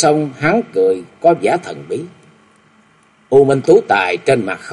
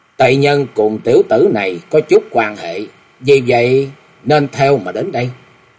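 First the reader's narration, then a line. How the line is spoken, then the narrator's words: Cold, corpse-like voice. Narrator (Vietnamese): U Minh Tú Tài mặt lạnh lẽo như thây ma, y lạnh lùng nói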